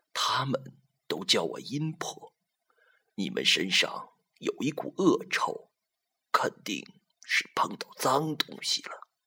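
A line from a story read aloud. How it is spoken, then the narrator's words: Hoarse old woman. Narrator (Chinese): 老太婆眼睛都不睁，沙哑着嗓子说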